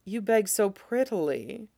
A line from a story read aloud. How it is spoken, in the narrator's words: he murmurs